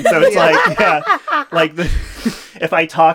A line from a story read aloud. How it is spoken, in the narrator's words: she yells at me